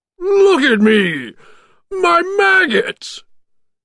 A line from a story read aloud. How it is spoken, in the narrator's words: cried Oogie Boogie